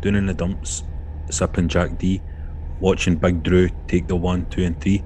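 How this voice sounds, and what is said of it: Attempted Grado impression. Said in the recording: “I'm doing Grado's voice here... I can't do impersonations... I'm trying to do Grado”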